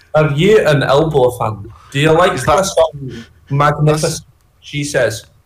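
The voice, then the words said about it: Put-on Scottish accent. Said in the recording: “what was that voice? ... That sounds like you're doing a Scottish accent. ... I'm just doing a Scottish accent.”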